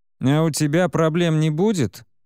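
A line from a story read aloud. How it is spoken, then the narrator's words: Nasal mocking snicker. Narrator (Russian): Со смешком гнусавит один из них, маленький негр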